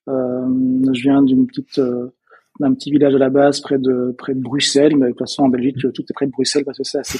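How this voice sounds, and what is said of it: Belgian French accent. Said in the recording (French): “peut-être que vous avez entendu euh, à mon accent, je suis belge”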